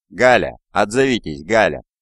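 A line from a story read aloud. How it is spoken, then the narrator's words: Shouting into a chasm. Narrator (Russian): Наклонившись над провалом, Ван Лун крикнул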